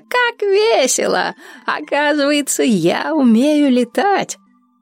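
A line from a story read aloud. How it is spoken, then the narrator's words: Laughing. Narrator (Russian): Дуня смеялась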